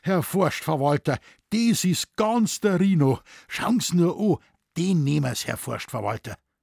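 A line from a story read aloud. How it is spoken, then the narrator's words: Excited. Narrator (German): sagte aufgeregt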